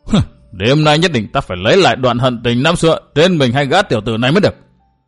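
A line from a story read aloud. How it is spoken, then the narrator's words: Anguished roaring shout. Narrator (Vietnamese): đột nhiên hắn ngẩng cổ gào lên một tiếng thê thảm, quát lớn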